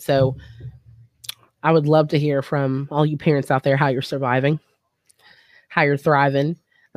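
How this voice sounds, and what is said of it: Hoarse, strained voice. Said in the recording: “even I'm losing my voice, I don't have COVID”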